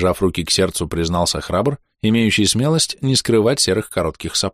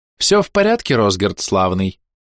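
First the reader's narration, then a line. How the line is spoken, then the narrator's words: Unexpectedly cheerful, smiling. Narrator (Russian): неожиданно бодро улыбнулась госпожа Мизрел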